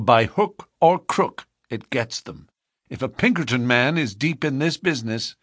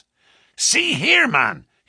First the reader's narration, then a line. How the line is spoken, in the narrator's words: he cried, and he almost screeched the words in his excitement